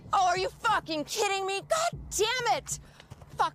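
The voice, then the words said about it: Angry yelling. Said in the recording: “Sorry for yelling.”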